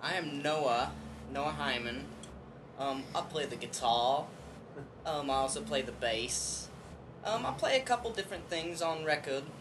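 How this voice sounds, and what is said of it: Half-convincing put-on British accent. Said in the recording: “Sometimes I slip into a quasi-British accent. ... Quasi being the operative word there. ... It's very quasi-modo”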